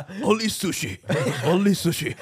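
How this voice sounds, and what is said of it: Put-on Japanese accent. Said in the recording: “a Japanese accent”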